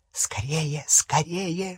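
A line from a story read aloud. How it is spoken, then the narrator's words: Hissing in ear. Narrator (Russian): шипел ему в ухо Крюкохват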